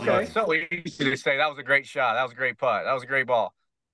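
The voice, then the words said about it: Southern American accent. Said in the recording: “my redneck Southern accent”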